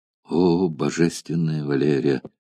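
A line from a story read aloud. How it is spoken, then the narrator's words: Barely audible, trembling with emotion. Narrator (Russian): чуть слышно произнес Спартак, бледнее и дрожа от волнения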